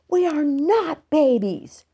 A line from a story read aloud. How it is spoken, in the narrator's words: Ramona yelled back